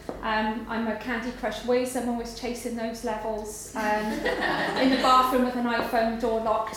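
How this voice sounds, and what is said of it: Welsh accent. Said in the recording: “I'm a very proud Welsh woman, but you detect my accent.”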